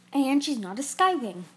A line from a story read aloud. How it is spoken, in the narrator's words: Kestrel snapped